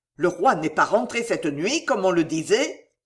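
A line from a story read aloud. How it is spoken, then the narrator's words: Growled. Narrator (French): gronda-t-il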